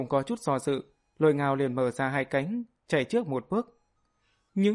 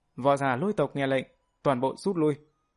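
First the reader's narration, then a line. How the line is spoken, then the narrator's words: Fearful. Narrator (Vietnamese): Trong lòng hắn vẫn còn sợ hãi, nói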